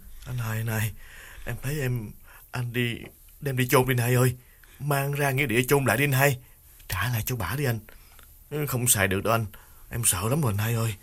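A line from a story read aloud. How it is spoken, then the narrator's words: Trembling, pleading. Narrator (Vietnamese): Đào run run níu cánh tay Nghiên và chỉ chiết nói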